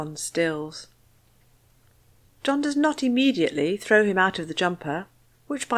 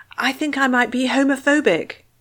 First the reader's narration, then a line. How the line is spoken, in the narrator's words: finally blurts